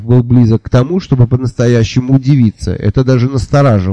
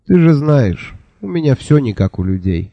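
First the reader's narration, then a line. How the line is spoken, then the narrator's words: Sighing. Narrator (Russian): вздохнул я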